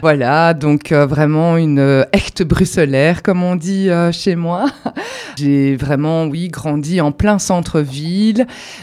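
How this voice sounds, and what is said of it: Slight regional French accent. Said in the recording (French): “Il y a un petit accent.”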